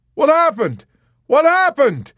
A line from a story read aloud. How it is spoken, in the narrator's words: he cried and trembled violently when he could not hear his own voice in his ears